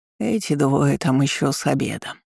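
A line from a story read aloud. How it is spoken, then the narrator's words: Mutter. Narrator (Russian): пробормотала библиотекарша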